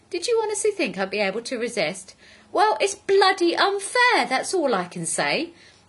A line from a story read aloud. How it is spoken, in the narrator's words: said indignantly